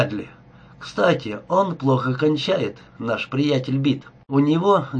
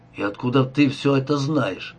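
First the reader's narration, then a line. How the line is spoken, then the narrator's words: Grumbling. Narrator (Russian): проворчал Олин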